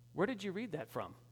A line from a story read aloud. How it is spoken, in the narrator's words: The man looked at him calmly and said